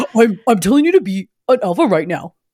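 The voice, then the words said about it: Disjointed Andrew Tate impression. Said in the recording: “my shitbag Andrew Tate impression ... the way he talks, so disjointed”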